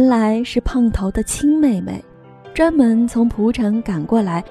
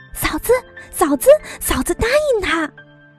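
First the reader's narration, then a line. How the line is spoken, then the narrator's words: Excited girl shouting. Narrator (Chinese): 姑娘喊道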